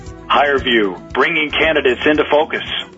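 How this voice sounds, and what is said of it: Announcer-style radio voice. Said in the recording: “in your best radio voice ... Not bad for a talent guy.”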